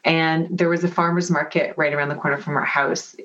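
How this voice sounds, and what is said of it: Mixed Canadian and British accent. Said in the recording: “As you can probably tell from my accent, I'm Canadian and British.”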